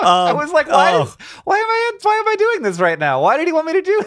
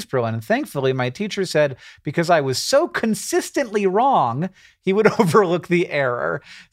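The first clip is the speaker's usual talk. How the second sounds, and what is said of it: Put-on Australian accent. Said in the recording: “Said with an Australian accent”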